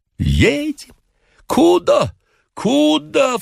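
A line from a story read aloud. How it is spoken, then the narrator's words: Startled waking cry. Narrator (Russian): вскрикнул хозяин, проснувшись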